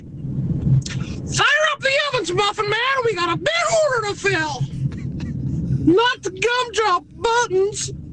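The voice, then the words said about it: Gingerbread man character voice. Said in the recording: “I do a pretty damn good impression of the gingerbread man ... It was the laugh at the end.”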